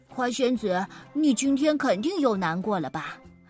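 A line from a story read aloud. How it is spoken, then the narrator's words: Sighing big bird. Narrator (Chinese): 大鸟叹了口气说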